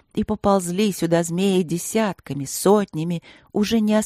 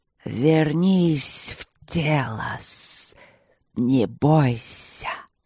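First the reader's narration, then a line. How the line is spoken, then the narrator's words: Hissing large creature. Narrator (Russian): шипело большое существо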